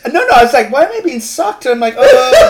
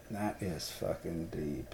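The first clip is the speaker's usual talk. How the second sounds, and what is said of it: Deep lowered voice. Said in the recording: “Even my voice went deep... My ears just unclenched hearing that voice.”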